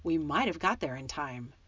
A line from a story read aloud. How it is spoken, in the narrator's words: Harry said bitterly